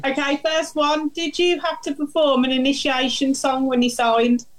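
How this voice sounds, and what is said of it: Brummie (Birmingham) English accent. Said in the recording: “Can you understand my Brummie accent?”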